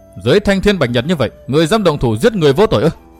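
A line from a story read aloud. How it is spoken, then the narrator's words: Cold shout. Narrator (Vietnamese): Hắn bèn lạnh lùng hét nói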